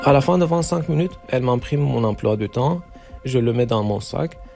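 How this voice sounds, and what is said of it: Non-native accent speaking French. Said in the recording (French): “mon niveau de français, c'est pas très bien. J'ai jamais vécu en France ... on fait des blagues sur mon accent, des fautes que je fais”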